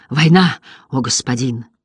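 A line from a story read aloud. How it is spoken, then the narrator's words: Breathless, faun. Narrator (Russian): выдохнул фавн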